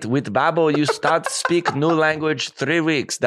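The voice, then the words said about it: Put-on Asian accent imitating Chow. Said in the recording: “Now I'm doing an accent, and that's inappropriate... That's definitely Asian... Chow from The Hangover”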